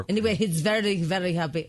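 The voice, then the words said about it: Put-on Russian accent. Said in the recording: “What is this accent? ... Russia? ... I'm doing Russia.”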